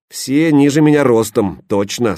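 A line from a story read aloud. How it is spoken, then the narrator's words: Plain. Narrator (Russian): сказал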